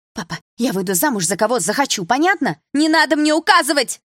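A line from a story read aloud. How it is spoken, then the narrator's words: Shout. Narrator (Russian): закричала подруга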